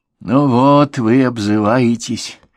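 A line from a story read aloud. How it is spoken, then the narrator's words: Sad kangaroo. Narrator (Russian): грустно кенгуру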